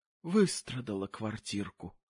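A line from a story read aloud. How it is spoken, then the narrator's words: Muttering. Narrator (Russian): пробормотала она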